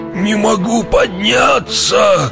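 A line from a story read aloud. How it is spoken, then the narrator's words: Hunchback groaning. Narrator (Russian): Стонал горбун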